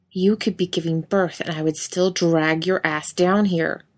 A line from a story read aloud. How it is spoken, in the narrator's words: Ellen snapped